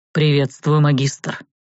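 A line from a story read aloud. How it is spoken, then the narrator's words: Strong deep voice. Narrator (Russian): сказал сильным низким голосом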